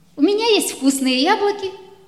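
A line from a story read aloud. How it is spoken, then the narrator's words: Happy girl. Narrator (Russian): радостно сказала девочка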